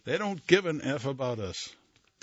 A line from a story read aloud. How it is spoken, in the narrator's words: yell